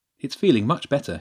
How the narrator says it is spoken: said happily

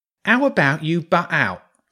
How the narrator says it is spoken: the rat said angrily

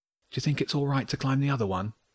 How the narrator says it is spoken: Wilf asked quietly

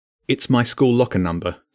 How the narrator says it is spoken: Jenny said

